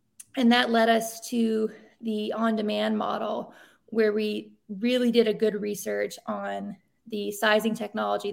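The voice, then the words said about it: Breathless, out-of-breath speech. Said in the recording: “I'm like out of breath because I'm nine months pregnant ... I'm like, I'm like out of breath”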